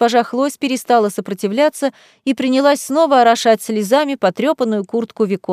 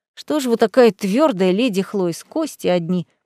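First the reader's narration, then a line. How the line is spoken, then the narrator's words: Young man muttering. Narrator (Russian): пробормотал юноша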